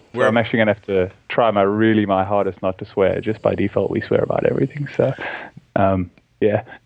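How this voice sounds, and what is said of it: Australian accent. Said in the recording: “obviously we can tell from your accent ... No, I live in Australia.”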